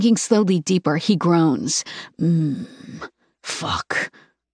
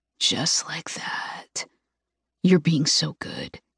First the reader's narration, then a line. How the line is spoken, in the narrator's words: whispers